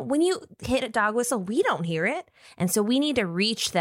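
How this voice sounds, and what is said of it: Usual voice. Nothing is said of it.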